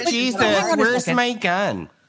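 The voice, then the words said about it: Put-on Midwestern accent. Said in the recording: “the Midwestern accent, spot on”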